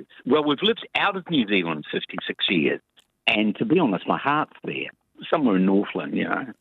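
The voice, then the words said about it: New Zealand accent. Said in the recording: “I'll try and get my Kiwi accent coming right.”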